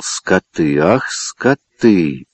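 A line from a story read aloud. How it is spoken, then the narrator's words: Angry threatening mutter. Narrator (Russian): Но его гнев еще не утих, и он грозно бормотал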